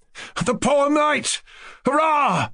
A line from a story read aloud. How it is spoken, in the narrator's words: cried Kolya, enchanted